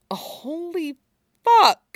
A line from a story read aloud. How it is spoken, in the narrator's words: he groaned, only barely quieter than his normal tone